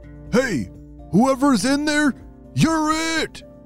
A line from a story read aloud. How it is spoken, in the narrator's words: shouted a voice from outside